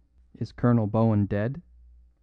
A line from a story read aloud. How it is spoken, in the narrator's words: said the smith quite calmly